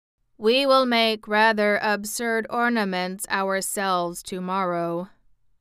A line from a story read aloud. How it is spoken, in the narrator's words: observed the machine in his monotonous voice